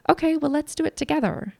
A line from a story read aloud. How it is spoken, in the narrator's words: cheerfully say